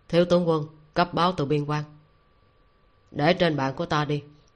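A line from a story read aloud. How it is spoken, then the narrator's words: Youth's cold voice. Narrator (Vietnamese): Thiếu niên lạnh lùng nói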